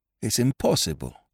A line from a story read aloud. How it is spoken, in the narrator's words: murmured Jap